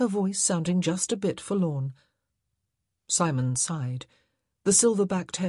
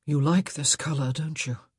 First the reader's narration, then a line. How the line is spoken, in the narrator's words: he said in a husky voice